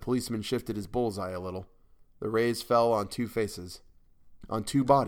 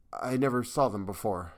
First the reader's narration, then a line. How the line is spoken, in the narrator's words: gasped, trembling in every nerve